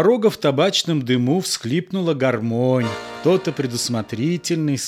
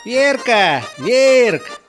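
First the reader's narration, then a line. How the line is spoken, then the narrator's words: Drunken man shouting. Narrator (Russian): кричал изрядно подпивший мужичок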